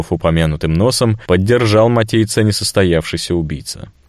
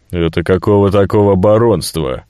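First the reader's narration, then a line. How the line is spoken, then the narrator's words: Snort. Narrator (Russian): хмыкнул Горбун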